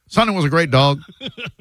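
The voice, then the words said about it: Imitates a comedian's voice. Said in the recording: “Are you doing a Ron White? ... my patented tater salad impression ... That's what it sounded like.”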